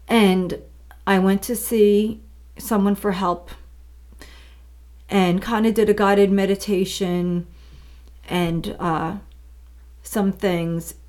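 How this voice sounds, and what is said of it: Choked-up, emotional voice. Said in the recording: “I'm getting choked up a little bit.”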